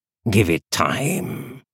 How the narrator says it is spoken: said Cal in his gritty, patient voice

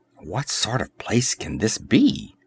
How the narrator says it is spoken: muttered Valeria under her breath

